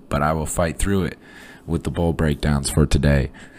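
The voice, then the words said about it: Hoarse, strained voice. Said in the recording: “coming off the flu, losing my voice a little bit... It's just my voice sounds terrible”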